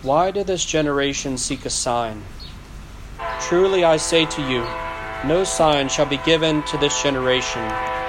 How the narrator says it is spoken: sighed deeply in his spirit and said

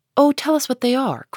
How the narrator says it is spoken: cried Meg

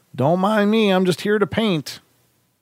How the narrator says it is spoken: to yell out something to the effect of

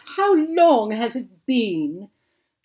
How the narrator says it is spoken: sighed Florence at the sight of Hope

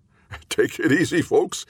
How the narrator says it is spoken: he forced a chuckle

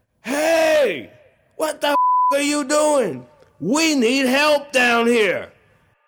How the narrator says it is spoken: I yelled

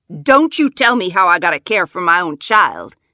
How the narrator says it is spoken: she snaps

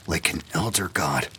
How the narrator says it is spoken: whispered Hammond

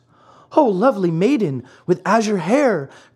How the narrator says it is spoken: cried Pinocchio

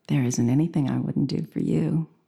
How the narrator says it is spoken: she smiled and said quietly

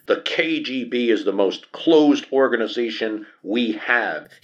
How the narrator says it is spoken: he shouts to the other delegates and on TV screens across the Soviet Union

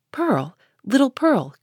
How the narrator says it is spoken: cried he, after a moment's pause, then suppressing his voice

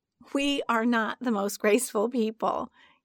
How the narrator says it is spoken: say, giggling

